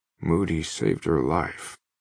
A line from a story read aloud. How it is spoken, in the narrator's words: Kimball says in a quiet voice